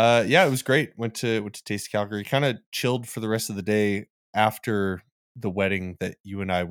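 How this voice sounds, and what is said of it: Usual voice. Nothing is said of it.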